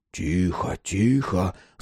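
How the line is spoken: Whisper in the ear. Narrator (Russian): зашептал ему на ухо Никодим

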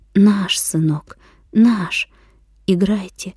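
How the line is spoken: Trembling voice. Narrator (Russian): Дрогнувшим голосом ответила она

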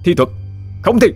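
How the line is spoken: Shouted. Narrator (Vietnamese): Hắn quát

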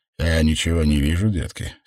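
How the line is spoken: Plain. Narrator (Russian): сказал Уэйнрайт

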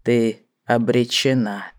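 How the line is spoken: Quiet. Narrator (Russian): произнес Мак тихо

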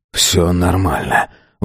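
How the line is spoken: Breathed out. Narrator (Russian): выдохнул

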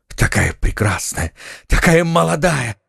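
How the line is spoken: Exclamation. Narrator (Russian): воскликнул Фельтон

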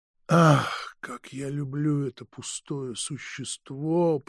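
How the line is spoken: Mournful moan. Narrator (Russian): простонал Павел Петрович, тоскливо

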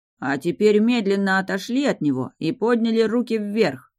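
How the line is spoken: Barked in male bass. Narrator (Russian): Мужским басом рявкнула я

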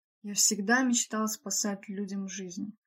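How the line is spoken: Young man's inward sigh. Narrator (Russian): вздохнул про себя юноша

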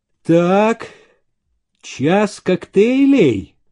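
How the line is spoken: Drawl then exclamation. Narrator (Russian): протянул Зеленин и воскликнул

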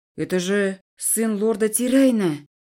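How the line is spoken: Muffled male voice. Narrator (Russian): Голос мужчины звучал глухо

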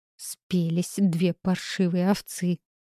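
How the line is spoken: Hissed with bitter vexation. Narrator (Russian): со жгучей досадой прошипела Жиннет Байе

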